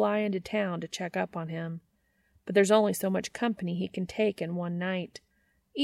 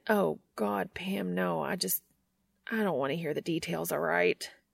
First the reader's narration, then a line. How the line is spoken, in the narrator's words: He mutters